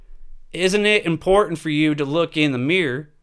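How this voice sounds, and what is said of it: Put-on Southern accent. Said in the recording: “I don't know why I had a southern accent there”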